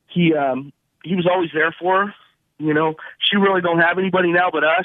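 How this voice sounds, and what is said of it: Choked up, emotional voice. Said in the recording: “I'm getting a little choked up here.”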